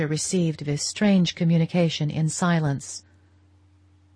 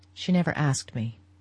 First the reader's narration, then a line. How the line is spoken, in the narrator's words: he said, in a low voice